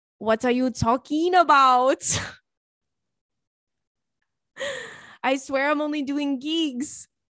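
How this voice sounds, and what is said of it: Put-on French accent. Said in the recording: “in a French accent”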